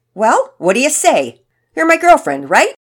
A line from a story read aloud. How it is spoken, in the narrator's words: In a brash tone, Nigel asked